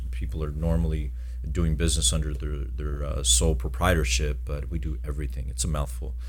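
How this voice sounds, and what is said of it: Deep, smooth voice. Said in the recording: “got a sexy voice? ... I do a little bit deeper, you know. I like smooth it in.”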